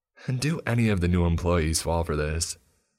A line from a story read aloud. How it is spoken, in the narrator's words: asked, with a chuckle